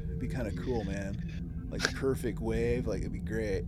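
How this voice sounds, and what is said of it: Laid-back surfer-style speech. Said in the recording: “talking like a surfer”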